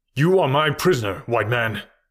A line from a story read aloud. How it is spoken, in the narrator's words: in a loud voice shouted